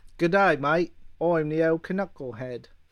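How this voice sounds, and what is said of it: Put-on Australian accent. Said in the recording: “Wolverine, better with an Australian accent”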